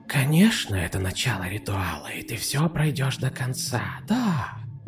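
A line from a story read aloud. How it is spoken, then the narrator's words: Female whisper. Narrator (Russian): Ответил женский шепот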